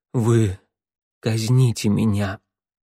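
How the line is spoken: Barely audible. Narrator (Russian): едва слышно произнесла она

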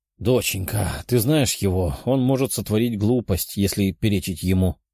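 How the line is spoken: Sighing father. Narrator (Russian): вздохнул Семен Артемович, отец девушки

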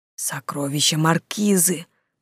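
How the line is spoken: Whisper. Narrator (Russian): прошептал Франц

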